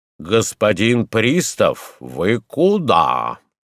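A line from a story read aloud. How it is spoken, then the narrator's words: Confident deep bass. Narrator (Russian): Уверенным густым басом сказал председатель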